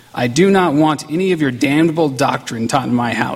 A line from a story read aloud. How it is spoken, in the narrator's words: she said